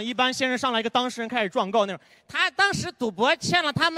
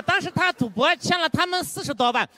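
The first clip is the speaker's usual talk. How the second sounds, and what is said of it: Imitated odd regional accent. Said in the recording (Chinese): “那人口音就莫名其妙”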